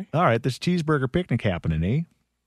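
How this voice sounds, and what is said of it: Attempted East Coast Canadian accent. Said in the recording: “in an East Coast voice ... You went, like, prairies.”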